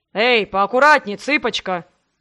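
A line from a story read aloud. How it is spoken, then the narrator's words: Man's booming drone. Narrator (Russian): прогудел мужчина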